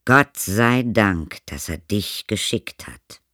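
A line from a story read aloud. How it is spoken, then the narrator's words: Plain. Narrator (German): sagt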